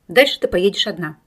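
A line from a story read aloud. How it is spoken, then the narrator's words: Calm declaration. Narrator (Russian): спокойно заявил Семен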